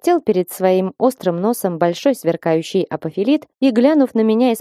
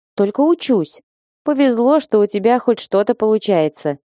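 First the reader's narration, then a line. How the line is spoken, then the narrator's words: Snorting. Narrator (Russian): хмыкнул Фасм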